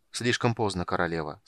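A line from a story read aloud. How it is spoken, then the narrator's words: Calm. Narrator (Russian): спокойно сказал полуэльф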